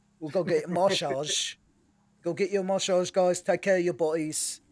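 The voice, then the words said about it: Bad imitation English accent. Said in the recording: “making fun of him with a bad English accent.”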